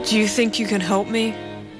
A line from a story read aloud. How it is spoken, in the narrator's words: Keith pleaded